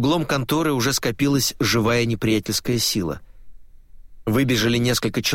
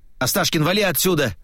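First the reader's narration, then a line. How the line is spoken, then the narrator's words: Shouted. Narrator (Russian): прокричал Глеб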